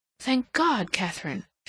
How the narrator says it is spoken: she exclaimed

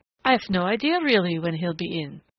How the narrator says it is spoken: said McLean

